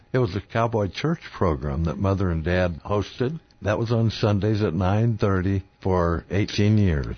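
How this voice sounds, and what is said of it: Rich broadcaster's radio voice. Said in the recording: “listen to that voice. That's a radio voice.”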